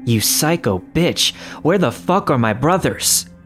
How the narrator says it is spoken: yelled

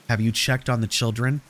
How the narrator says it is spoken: a whispering voice on the other end asked

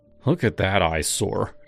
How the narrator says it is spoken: he grumbled

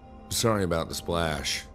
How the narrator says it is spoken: I said

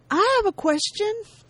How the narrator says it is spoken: A familiar voice that shouts out

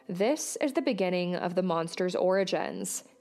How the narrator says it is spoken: he said

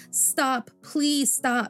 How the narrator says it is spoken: Jabu cried, his voice cracking with fear

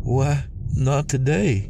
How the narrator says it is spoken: Jen sighed

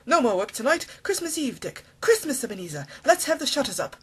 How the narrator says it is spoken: cried old Fezziwig with a sharp clap of his hands

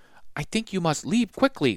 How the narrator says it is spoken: whispered the silk weaver

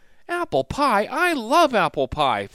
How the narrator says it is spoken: Flynn exclaimed

